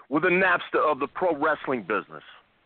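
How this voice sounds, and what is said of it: Imitates another person's voice, New York. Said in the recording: “A little Taz, a little Bubba. I'm confusing my impersonations ... it's all New York.”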